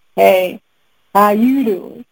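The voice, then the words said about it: Imitates another person's voice. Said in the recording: “in my Wendy Williams voice.”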